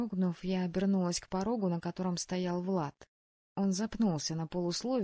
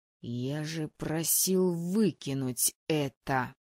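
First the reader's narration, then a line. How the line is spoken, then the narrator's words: Growling. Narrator (Russian): даже не сказал, прорычал Влад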